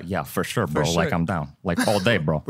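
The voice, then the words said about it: Impression of Chris D'Elia. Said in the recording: “Bro, you do Chris D'Elia?”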